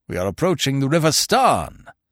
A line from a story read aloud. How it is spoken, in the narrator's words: roared Sir Lionel